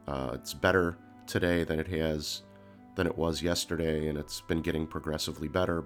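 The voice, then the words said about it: Deep, nasal, congested voice. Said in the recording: “my voice sounds really deep, way deeper than it normally does, and I may sound a little bit more nasally than usual. I definitely have a cold ... I still have a ton of congestion”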